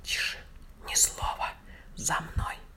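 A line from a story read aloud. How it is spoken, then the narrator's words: Whisper. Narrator (Russian): Петя шепнул товарищам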